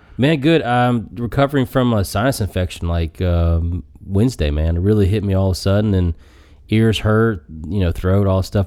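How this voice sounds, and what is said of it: Deep congested sinus voice. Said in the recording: “You got that radio voice going now, that sinus stuff, though... Get that deep rumble.”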